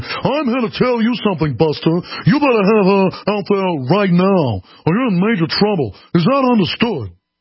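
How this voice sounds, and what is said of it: Put-on elite New York accent. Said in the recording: “the perfect elite New York accent. You know the one they use in Ferris Bueller's Day Off?”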